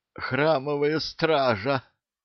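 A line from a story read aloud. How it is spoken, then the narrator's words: Hoarse, resigned sergeant. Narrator (Russian): прохрипел сержант, понимая, что правду из него все равно вытрясут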